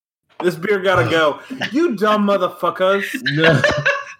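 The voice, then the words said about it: Drunken put-on British accent. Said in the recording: “was that your best British accent? ... It's my drunk British accent.”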